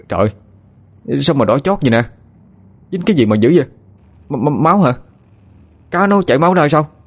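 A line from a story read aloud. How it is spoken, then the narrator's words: Shouting in alarm. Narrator (Vietnamese): la lên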